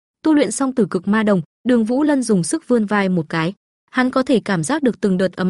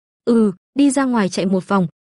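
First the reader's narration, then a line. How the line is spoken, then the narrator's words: Smiling reply. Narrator (Vietnamese): Đường Vũ Lân mỉm cười trả lời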